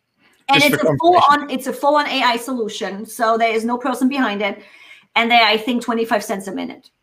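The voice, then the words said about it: Non-native English accent. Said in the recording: “English second language ... Temi understands my accent the best”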